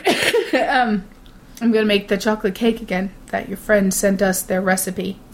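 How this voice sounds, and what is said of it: Hoarse, fading voice. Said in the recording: “I'm losing my voice. That's very odd.”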